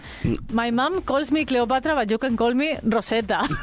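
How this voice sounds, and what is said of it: English spoken with put-on Spanish accent. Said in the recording (Spanish): “Le decía con acento español, pero hablando en inglés.”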